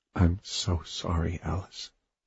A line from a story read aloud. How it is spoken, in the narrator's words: whispered